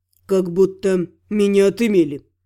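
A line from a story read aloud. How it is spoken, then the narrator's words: Grumbled. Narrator (Russian): буркнул воин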